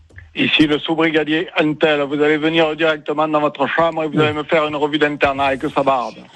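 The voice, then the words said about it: Put-on Marseille-style southern French accent. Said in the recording (French): “l'accent que tu avais fait ... on est sur Marseille”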